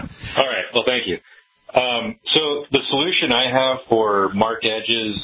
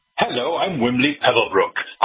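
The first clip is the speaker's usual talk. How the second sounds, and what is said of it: Put-on British news announcer voice. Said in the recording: “an impersonation of the news bumper you have to listen to on hold... in a British accent”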